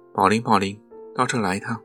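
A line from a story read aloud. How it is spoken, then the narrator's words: Loud shout. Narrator (Chinese): 酒桶 他就大叫起来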